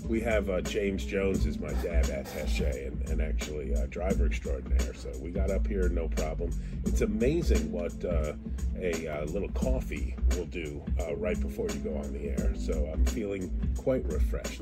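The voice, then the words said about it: Pleasant radio voice. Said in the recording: “I love your radio voice too. It sounds good in my ears... It's just really nice with that tone.”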